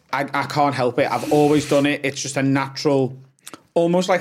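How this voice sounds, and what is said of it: Softened, slowed Liverpool accent. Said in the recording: “when i'm around people who aren't from liverpool my accent softens ... slows down too ... this is not how I talk”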